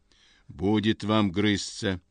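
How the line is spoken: Stern. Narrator (Russian): говорит строго Горкин

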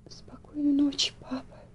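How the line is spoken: Sobbing young girl. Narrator (Russian): всхлипнула девочка

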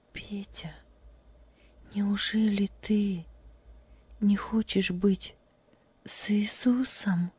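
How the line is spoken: Quiet question. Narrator (Russian): тихо спросила Любочка

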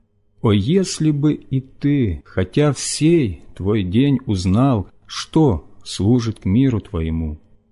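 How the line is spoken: Loud weeping cry. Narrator (Russian): сын этот, горько плача и громко взывая

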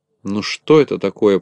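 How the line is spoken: Grumbling. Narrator (Russian): проворчал Ворчун

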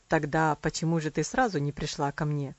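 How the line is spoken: Wry questioning tone. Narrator (Russian): кривым тоном спросил он

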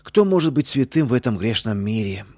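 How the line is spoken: Deep sigh, defensive. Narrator (Russian): глубоко вздохнула она, оправдываясь

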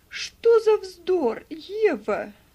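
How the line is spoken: Exclaiming. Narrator (Russian): воскликнула Мари

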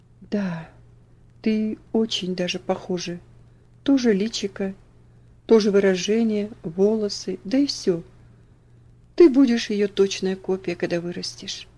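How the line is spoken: Muttering. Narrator (Russian): он пробормотал

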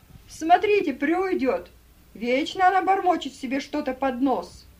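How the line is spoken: Shout. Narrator (Russian): кто-то из негритянок крикнул

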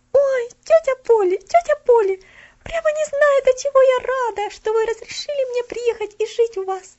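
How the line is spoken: Sobbing. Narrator (Russian): Всхлипывая, говорила она

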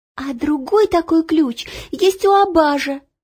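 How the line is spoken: Cried out. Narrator (Russian): вскрикнула Ело

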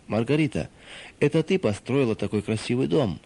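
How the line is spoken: Plain. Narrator (Russian): сказал он

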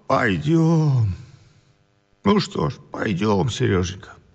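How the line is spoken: Old man sobbing helplessly. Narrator (Russian): Старик беспомощно всхлипывал

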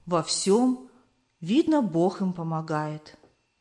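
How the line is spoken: Old woman's pensive sigh. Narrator (Russian): вздохнула задумчиво старушка

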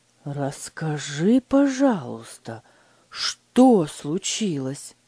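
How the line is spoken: Gentle, calm question. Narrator (Russian): мягко спросил Фридрих, стараясь сохранить спокойствие

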